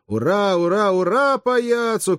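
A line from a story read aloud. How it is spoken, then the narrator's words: Many voices shouting. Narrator (Russian): кричали другие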